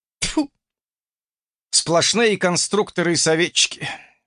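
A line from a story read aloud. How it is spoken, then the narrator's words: Exasperated sigh. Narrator (Russian): вздохнул еще один геймер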